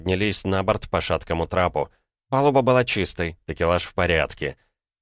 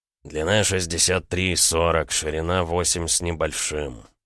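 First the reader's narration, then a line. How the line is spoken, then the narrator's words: Muttering to himself. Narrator (Russian): бормотал он себе под нос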